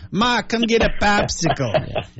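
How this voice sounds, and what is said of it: Put-on Boston accent. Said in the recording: “I love the Boston accent... So I grew up with the Boston accent.”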